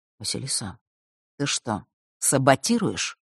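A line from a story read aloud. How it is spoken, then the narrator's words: Quiet private question. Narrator (Russian): тихо спросил он, убедившись, что остальные их не услышат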